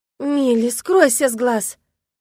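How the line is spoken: Groaned. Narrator (Russian): простонала я

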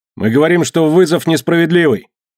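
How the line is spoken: Shouted. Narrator (Russian): Билл Томас закричал

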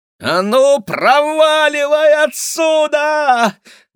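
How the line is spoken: Screaming at full voice. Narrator (Russian): во все горло заорала Кира

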